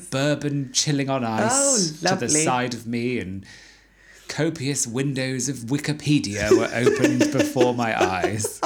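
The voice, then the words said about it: Weirdly posh voice. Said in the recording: “in a weirdly posh voice”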